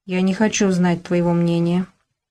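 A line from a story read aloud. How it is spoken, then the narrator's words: Calm, firm, yet timid. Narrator (Russian): спокойно и твердо проговорил робко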